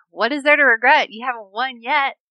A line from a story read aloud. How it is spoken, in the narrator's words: Halfdan yells back